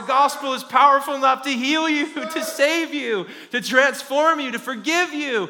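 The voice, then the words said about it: Raised, loud preaching voice. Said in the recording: “I'm raising my voice”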